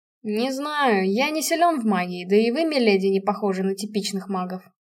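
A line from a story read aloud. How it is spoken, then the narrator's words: Plain. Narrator (Russian): ответил он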